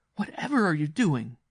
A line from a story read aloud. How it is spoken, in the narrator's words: she cried